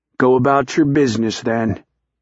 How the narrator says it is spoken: Charlie said flatly

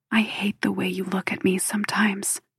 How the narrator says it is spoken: she whispers, and he can hear the tears

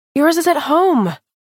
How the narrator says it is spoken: I cried, but my heart swelled anyway

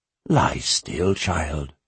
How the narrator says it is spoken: he said softly

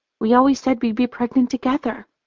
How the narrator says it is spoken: she whispers

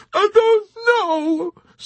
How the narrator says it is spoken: sobbed the old woman

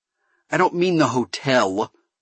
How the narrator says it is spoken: Kerensky spat

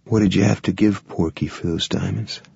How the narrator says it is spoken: Randy asked softly

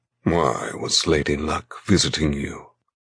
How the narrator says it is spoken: he demands in a thick voice

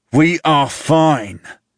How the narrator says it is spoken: I growl at him, literally growl, like a rabid fucking dog

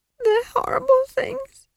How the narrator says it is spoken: Esk sobbed

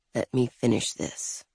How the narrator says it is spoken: he murmured

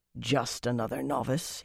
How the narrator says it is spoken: he murmured

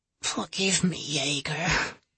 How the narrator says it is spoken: she rasped

